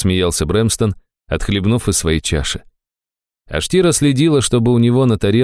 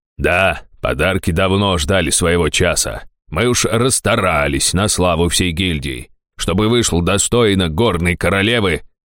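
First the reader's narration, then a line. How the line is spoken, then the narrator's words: Pompous speech, snort. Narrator (Russian): важно проговорил Фельдар и хмыкнул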